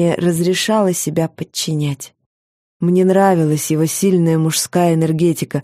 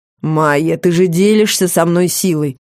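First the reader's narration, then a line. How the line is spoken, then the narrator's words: Even, slightly stern. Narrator (Russian): Голос звучал ровно и немного строго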